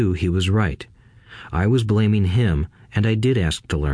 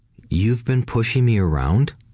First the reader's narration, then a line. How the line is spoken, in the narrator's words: I asked